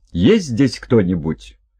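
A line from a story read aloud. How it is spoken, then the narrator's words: Shout, trying to sound firm. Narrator (Russian): Стараясь придать голосу твердость, Хельга крикнула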